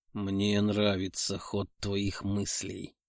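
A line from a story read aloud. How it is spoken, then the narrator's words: Quiet hoarse rasp. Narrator (Russian): тихо прохрипел Артем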